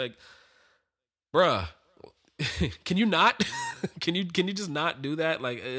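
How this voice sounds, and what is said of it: Usual voice. Nothing is said of it.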